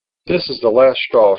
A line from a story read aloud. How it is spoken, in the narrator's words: she said